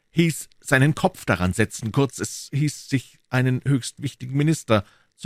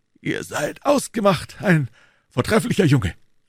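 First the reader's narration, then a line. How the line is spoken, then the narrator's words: Calling out. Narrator (German): rief Athos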